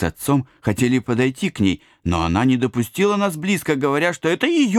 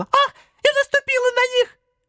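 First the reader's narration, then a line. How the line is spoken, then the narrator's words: Sudden shout. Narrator (Russian): вдруг закричала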